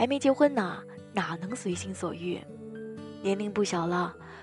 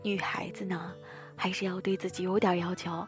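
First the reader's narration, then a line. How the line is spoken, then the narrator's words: Sighing. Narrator (Chinese): 大一叹息着说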